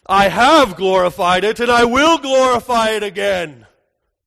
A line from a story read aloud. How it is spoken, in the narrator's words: voice thunders down and says